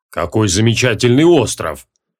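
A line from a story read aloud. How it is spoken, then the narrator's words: Deep bass voice. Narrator (Russian): пробасил толстяк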